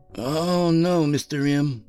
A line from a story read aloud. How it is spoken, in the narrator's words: said in an airy tone